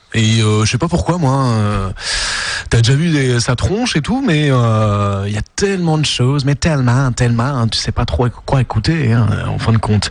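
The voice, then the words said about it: Put-on Québécois French accent. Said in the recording (French): “Pourquoi l'accent québécois ? ... je m'essaie au québécois”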